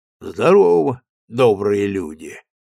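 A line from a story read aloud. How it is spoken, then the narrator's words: Low resonant voice. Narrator (Russian): низким звучным голосом сказал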